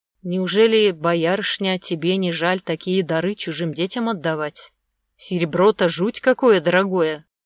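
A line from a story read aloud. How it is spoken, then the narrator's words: Sudden muffled voice. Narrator (Russian): Магута вдруг глухо произнес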